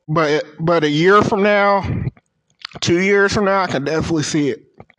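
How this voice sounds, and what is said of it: Hoarse, fading voice. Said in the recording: “I'm losing my voice, ... I'm losing it. I'm fighting a cold.”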